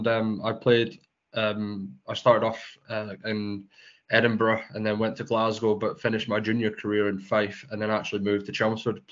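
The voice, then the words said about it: Scottish accent. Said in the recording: “you're a Scottish man from your accent”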